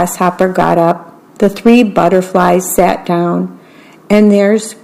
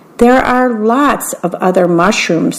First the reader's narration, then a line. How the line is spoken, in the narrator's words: said Grasshopper